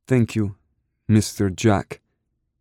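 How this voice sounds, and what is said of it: Accented baby voice. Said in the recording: “obnoxious, accent-laced baby voice”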